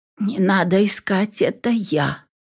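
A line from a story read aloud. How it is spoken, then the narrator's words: Frightened whisper. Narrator (Russian): побледневшими губами прошептала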